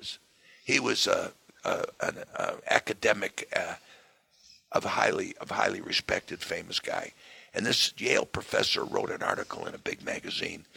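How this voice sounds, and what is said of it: Hoarse, rough voice. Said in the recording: “excuse my hoarse voice today”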